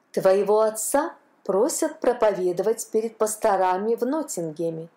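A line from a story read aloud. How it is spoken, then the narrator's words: Plain. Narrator (Russian): сказала она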